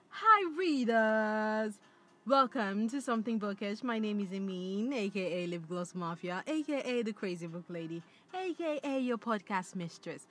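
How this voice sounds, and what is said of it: Unidentified put-on accent. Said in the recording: “Let me see if I can do it with an accent. ... I don't know what accent that is”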